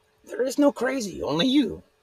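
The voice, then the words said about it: Higher-pitched Yoda impression. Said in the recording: “Now you're talking crazy, Yoda ... Now my impression's getting bad, huh? It's just me talking in like a higher register ... Yoda impressions”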